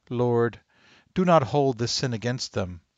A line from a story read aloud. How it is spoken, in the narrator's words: cried out in a loud voice